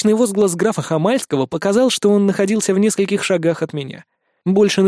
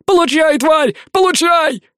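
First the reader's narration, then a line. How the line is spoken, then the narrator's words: Shouting. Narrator (Russian): кричал Хамальский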